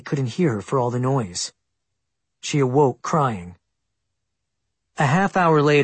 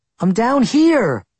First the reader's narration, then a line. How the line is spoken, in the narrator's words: She kept shouting